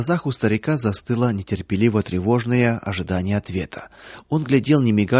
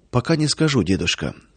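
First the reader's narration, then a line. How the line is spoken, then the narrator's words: Quiet. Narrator (Russian): тихо ответил он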